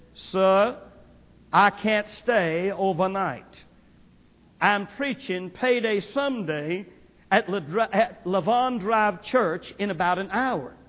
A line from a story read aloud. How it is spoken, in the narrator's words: In his deep South Memphis drawl, he said